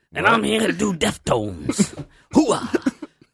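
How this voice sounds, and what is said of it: Imitates another person's voice. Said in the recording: “That's my Al Pacino impression.”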